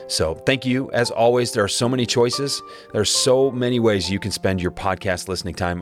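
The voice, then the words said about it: Raspy voice. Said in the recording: “my raspy voice today”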